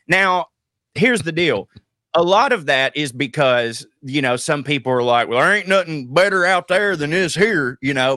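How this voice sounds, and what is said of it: Southern hillbilly accent. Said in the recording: “hillbilly ... a lot of people with my accent”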